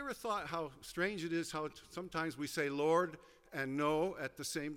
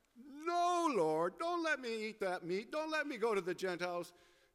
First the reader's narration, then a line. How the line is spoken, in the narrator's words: Peter also cried out